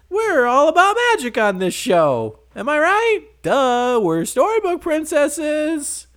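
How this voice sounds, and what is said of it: Mocking impression of a TV character. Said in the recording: “That's my impression of Once Upon a Time.”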